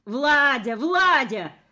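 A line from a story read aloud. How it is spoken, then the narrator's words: Shouting after someone. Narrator (Russian): кричала она мне вслед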